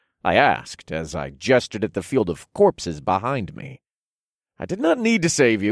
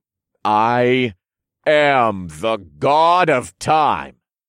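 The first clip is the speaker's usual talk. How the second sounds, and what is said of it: Deep, commanding godlike voice. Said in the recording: “in my best godlike voice.”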